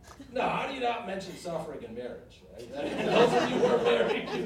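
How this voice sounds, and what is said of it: Usual voice. Nothing is said of it.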